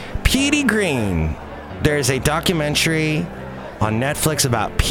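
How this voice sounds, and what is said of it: Usual voice. Nothing is said of it.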